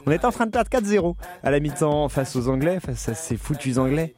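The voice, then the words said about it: French accent from France. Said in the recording (French): “vous l'entendez à mon accent, je suis français”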